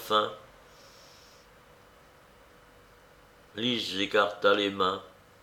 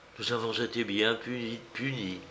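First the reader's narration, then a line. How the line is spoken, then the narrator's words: Muffled voice. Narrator (French): dit-elle d'une voix sourde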